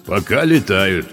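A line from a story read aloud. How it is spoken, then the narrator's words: Deep booming voice. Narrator (Russian): прогудел низкий голос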